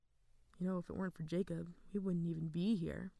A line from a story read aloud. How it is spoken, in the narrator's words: Kendrick mumbled